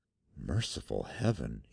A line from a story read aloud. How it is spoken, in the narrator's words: he whispered